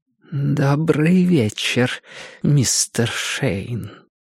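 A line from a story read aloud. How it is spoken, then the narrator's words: Quiet strangled voice. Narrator (Russian): сказала она тихим придушенным голосом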